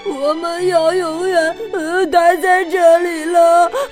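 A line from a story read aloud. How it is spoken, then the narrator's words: Little bear crying. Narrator (Chinese): 小熊开始哭起来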